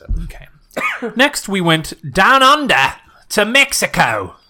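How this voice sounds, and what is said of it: Put-on Australian accent. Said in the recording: “Why are you saying with an Australian accent?”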